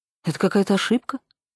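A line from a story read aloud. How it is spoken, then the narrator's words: Plain. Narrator (Russian): сказала я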